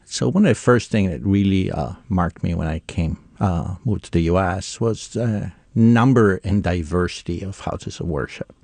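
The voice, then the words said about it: Italian accent. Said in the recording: “you can probably derive from my accent, I grew up in Italy”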